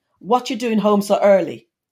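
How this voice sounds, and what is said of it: Strong Jamaican accent. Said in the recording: “my mum said to me in her strongest Jamaican accent”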